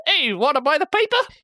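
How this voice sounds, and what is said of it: Old-timey newsboy accent. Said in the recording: “speaking like a newsboy accent”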